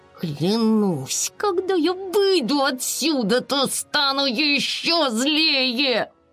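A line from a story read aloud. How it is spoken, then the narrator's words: Indignant, through gritted teeth. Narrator (Russian): Безрезультатные усилия подруг привели Айси в еще большее негодование, и она процедила сквозь зубы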